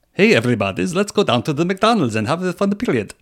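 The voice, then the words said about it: Put-on weird Ukrainian accent. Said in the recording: “You say it in like a weird accent. ... that's my Ukrainian voice”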